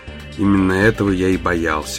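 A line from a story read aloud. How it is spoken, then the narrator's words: Gloomy remark. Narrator (Russian): мрачно заметил Даллас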